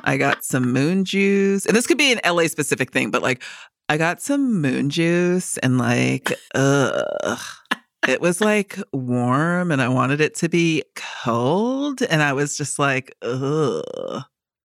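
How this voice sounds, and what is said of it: Put-on Californian accent. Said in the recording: “you gotta do a Californian accent ... that's kind of what I think of when I think of a Californian accent”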